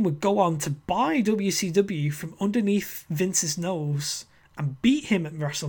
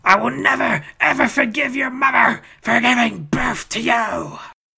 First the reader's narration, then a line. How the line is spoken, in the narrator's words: screaming at him